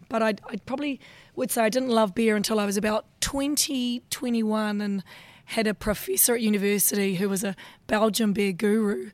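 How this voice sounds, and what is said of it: Husky voice, New Zealand accent. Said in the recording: “a very husky BrewCon voice ... the huskiness is helping, fortunately, mask the Kiwi accent”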